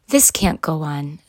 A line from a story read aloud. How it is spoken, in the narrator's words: sighed Mom